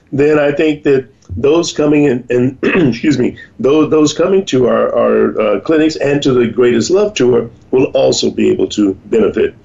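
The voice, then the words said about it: Slightly hoarse, throat-clearing voice. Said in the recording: “I've got a little frog in my throat,”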